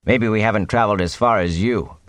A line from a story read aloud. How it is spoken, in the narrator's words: Perrin said flatly